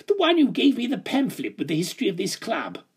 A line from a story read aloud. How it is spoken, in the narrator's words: yelped